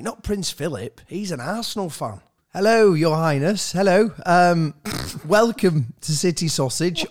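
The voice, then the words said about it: Put-on formal phone voice. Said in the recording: “I'm not going to talk in my normal voice. I'm going to be like a bit more, hello, hello. ... Obviously, it's my phone voice.”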